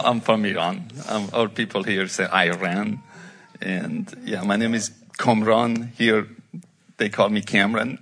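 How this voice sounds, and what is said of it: Iranian-accented English. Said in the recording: “No. As you can tell from my accent.”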